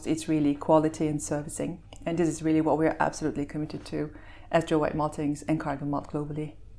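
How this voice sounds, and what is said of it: Belgian accent, somewhat mid-Atlantic. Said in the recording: “to our listeners who can hear your accent, you're obviously uh, not, an, not an Aussie ... you, are from Belgium ... That's why it's still mid-Atlantic ... You've got a long way to go before you uh, get the Aussie drawl”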